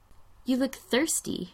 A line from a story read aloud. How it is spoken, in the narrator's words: Megan says